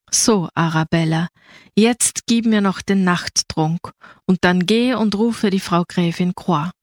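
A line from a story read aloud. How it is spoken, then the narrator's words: Calm, highly dignified. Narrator (German): Vollkommen ruhig und überaus hoheitsvoll sagte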